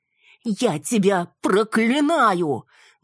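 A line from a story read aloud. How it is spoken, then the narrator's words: Woman's shriek. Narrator (Russian): взвизгнула женщина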